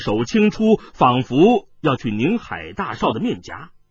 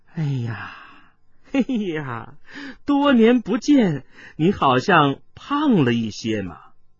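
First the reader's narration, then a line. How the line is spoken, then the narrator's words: Coy laugh, woman. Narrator (Chinese): 华府美妇又已经如落叶般的翻了进来，娇笑道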